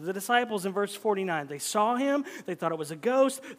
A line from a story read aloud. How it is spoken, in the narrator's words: they cried out, were terrified